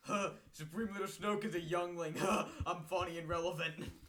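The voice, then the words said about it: Mocking imitation of a meme poster. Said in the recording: “my impression of the average Star Wars meme page”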